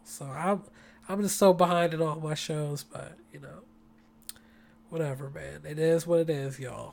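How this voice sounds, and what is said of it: Raspy, tired voice. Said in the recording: “my voice is getting a little raspy”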